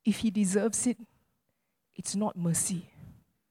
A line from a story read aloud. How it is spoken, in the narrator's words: this woman cries out and says